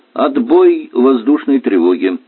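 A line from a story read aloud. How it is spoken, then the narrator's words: Cheerful. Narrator (Russian): весело сообщил он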